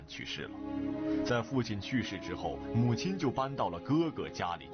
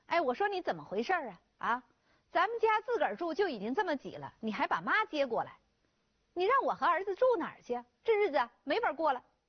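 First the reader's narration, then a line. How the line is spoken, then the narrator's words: Loud angry yelling. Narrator (Chinese): 于梅啊提起嗓门就大声嚷嚷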